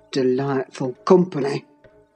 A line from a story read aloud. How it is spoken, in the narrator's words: muttered Heathcliff